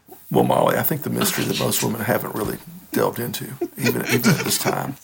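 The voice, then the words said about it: Imitates another person's voice. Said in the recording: “Do your Bill Clinton, because that's your best impression.”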